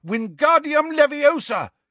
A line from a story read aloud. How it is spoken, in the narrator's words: he shouted